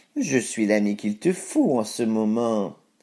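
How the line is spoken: Sly voice. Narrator (French): dit-il d'une voix sournoise

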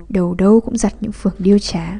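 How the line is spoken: Old teacher muttering. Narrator (Vietnamese): Ông giáo lẩm bẩm

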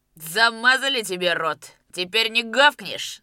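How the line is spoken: Loud laughing. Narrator (Russian): захохотал Кондрат

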